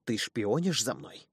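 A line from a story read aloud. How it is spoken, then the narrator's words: Venomous hiss. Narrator (Russian): прошипела, словно гадюка, которые наступили на хвост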